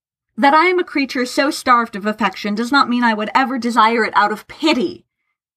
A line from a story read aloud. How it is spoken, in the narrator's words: Tharkay spat